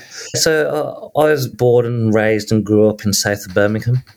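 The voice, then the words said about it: Slight Midlands English accent. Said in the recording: “I detect a bit of a Midlands accent. ... I thought I was masking it quite well, but obviously not.”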